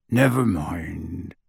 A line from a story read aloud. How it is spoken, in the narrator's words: he said gruffly